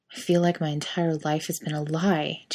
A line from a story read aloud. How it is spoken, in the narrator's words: Jerry mutters